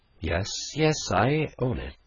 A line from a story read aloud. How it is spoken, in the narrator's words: she cried under her breath, with a drowsy fervor of manner and tone which was quite peculiar to her